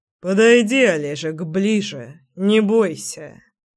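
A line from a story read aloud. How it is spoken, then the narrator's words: Said through teeth. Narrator (Russian): процедил Заверин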